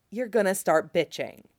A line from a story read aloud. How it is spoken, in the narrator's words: Ed says much more quietly in his ear